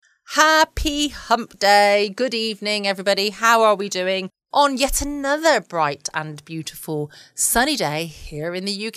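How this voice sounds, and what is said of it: Excited, upbeat voice. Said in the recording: “I sound very excited this evening, don't I?”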